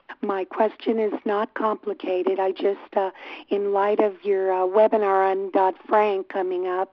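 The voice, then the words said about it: Hoarse, strained voice. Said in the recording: “I have laryngitis tonight. I hope you can understand me.”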